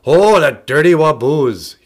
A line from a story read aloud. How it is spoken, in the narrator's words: he growled